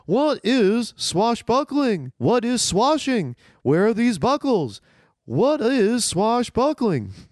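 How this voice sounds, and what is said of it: Imitates another person's voice. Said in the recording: “going to do a little Seinfeld impression”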